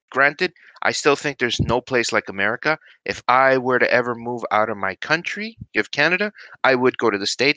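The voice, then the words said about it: Slight New York accent. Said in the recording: “you might recognize a bit of a New York accent when I the way I enunciate some of my words”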